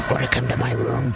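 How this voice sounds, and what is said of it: Inhuman, alien-like voice. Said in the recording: “in that soundbite, you don't even sound human. You sound like a gelatinous alien of some kind.”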